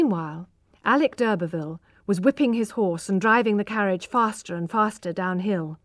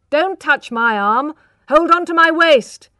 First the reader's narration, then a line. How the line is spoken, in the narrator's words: shouted